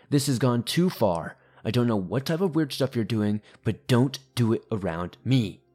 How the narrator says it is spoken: he angrily began yelling

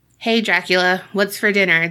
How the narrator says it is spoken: They chuckled

